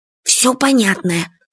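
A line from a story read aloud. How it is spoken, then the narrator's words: Whisper. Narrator (Russian): шепотом сказал Фадейка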